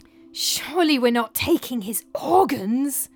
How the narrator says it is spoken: hissed Shorty in horror

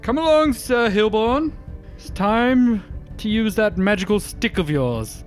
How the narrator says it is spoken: Ark, as he runs up, he's going to yell out

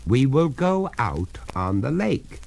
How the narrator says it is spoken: said the master firmly

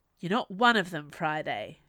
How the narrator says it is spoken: said sharply

